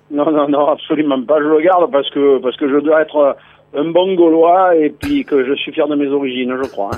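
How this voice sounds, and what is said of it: Southern French Provençal accent. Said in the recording (French): “il a toujours son accent ... il est d'où, ce petit accent ... le Mont Ventoux, Carpentras”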